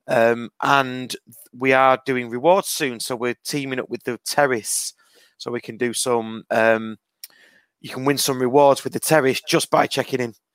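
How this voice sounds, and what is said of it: Strained, fading voice. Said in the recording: “Excuse me, my voice is going because of last night.”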